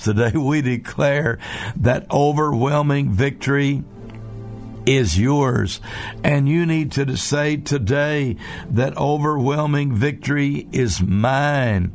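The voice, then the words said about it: Slightly hoarse voice. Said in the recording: “my voice gets a little bit hoarse”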